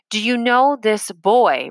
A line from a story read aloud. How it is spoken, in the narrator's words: repeated Kotler in a louder voice